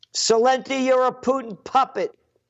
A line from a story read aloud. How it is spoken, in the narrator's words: There's this guy yelling out